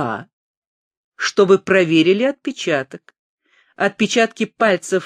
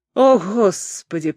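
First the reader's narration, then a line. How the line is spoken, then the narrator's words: Groaning. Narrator (Russian): простонал Хиллер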